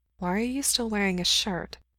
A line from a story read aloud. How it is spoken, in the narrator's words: he murmurs